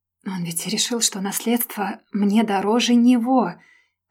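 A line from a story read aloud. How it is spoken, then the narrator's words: Whispered under breath. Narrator (Russian): прошептала себе под нос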